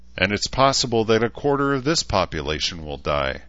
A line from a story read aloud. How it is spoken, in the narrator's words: Shida replied sadly